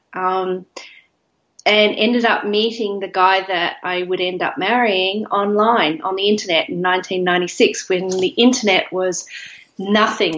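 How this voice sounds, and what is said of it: Australian accent. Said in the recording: “I'm not originally from there, as you can probably tell by the accent. I originally came from Australia”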